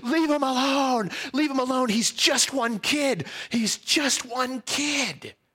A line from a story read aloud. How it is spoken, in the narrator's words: He's screaming